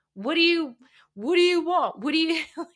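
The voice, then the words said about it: Frantic, flustered imitated reaction. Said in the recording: “my bad impression of like a frantic reaction to somebody being emotional”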